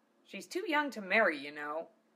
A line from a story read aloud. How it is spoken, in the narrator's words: Luna snapped back